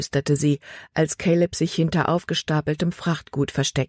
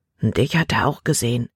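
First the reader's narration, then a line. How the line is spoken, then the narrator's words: Quiet warning. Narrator (German): warnte Caleb mit leiser Stimme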